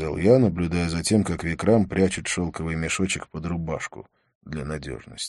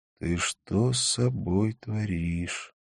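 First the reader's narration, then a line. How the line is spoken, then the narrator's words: Quiet. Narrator (Russian): тихо сказал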